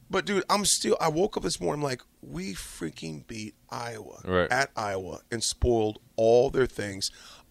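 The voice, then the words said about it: Strained, hoarse voice. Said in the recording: “my voice is still messed up right now. Because I was yelling so much.”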